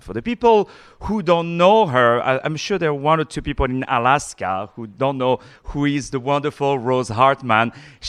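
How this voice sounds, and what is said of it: Non-native accented English. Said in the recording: “I'm cracking my accent. I'm cracking my English”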